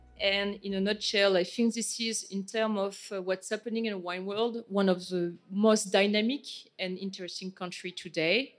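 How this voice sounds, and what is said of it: French-accented English. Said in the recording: “my accent is very French”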